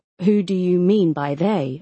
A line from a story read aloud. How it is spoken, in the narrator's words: I asked again